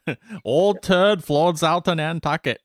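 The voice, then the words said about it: Exaggerated joke New England accent. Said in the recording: “New England accent ... they're doing it better than you just did ... not the joke version of it”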